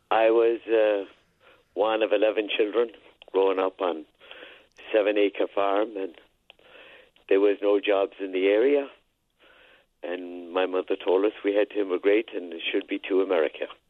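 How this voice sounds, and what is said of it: Irish accent. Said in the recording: “Oh, I love your accent. You still have it... And you still sound Irish.”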